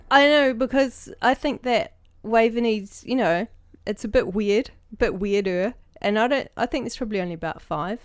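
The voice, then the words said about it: New Zealand accent. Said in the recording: “you can hear I've got a New Zealand accent”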